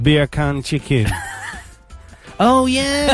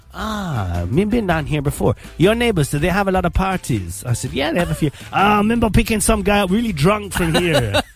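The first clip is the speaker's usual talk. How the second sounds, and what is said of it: Jamaican accent impression. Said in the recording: “Very good impression... speak Jamaican”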